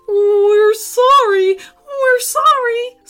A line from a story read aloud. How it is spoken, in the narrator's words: squealed the teenagers